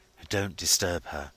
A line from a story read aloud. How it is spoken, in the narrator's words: he whispered